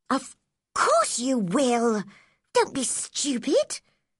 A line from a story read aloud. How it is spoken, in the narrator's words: said Mary crossly